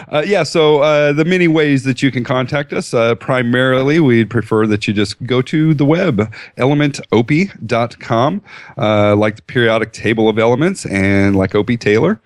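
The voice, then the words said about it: Put-on announcer radio voice. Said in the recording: “radio voice just a little bit. I don't have Mark's radio voice, but I have an aspiring 13-year-old radio voice.”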